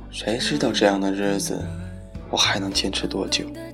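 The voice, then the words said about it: Quiet, soft-spoken line. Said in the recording (Chinese): “小声的说着”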